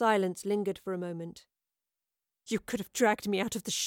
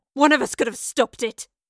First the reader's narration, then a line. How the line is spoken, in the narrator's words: Madeline spat